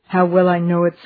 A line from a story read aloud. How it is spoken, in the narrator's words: sighed the man